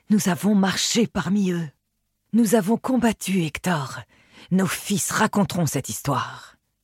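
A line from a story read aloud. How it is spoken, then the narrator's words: Admiring murmur. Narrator (French): murmurait-il avec admiration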